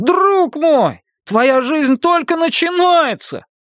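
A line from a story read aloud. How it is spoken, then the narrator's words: Loud laughter. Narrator (Russian): Кориолан расхохотался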